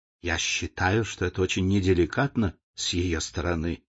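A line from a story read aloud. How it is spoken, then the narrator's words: Whispered complaint. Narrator (Russian): шепотом жаловалась леди Нарборо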